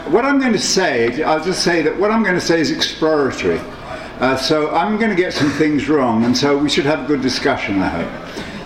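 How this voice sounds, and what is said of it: Unusual accent. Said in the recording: “my weird accent”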